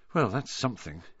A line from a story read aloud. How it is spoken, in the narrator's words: Harry muttered to the others